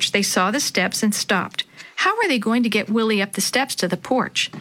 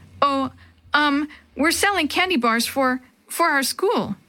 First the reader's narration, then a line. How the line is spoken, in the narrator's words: Jenny stammered